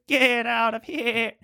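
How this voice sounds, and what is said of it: Impression of narrator's goat voice. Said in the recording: “when he does the voice of the goat thing ... You had to hear my impression ... The goat voice”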